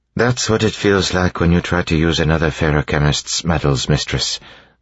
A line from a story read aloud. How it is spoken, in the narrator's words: Sazed said, sighing